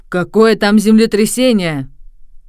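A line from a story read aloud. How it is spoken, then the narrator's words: Angry, very loud shouting. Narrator (Russian): рассердился профессор Тиболла, который кричал особенно громко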